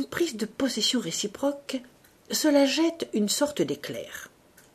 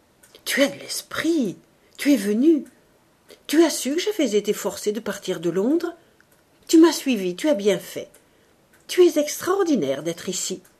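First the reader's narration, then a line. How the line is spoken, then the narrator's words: Exclaiming. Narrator (French): Elle s'écria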